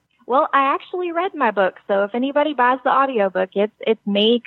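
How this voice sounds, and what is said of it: American country accent. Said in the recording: “country accent and all ... I get the country accent”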